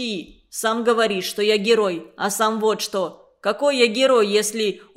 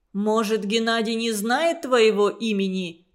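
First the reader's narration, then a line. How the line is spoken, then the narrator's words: Plain question. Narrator (Russian): спросил Иван Иванович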